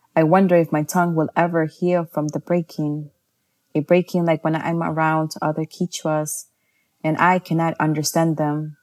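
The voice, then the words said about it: Heavy New York City accent. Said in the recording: “English with a heavy New York City accent.”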